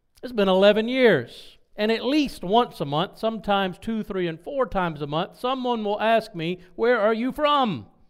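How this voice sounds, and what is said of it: Southern drawl. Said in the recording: “we all had that Southern drawl ... the way I talk, my drawl”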